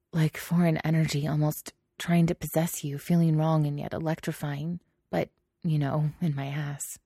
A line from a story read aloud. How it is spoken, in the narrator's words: mumbled